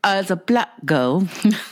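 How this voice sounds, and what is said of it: Vanity Milan accent impression. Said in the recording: “the official Vanity Milan accent”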